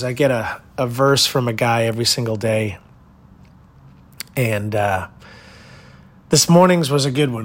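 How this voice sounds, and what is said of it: Tired-sounding voice. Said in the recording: “you can hear it in my voice. I'm a little tired”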